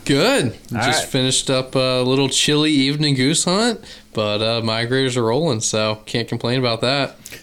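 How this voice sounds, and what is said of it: Mild Southern Virginian accent. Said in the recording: “you got just a little bit of a southern accent there. It's not real heavy ... your Virginian accent”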